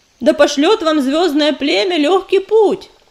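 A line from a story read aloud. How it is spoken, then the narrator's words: Shout. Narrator (Russian): крикнул Ежевика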